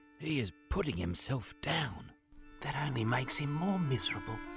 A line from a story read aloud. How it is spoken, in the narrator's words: Hoover whispered